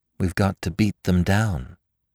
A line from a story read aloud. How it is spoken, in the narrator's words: whispered Daisy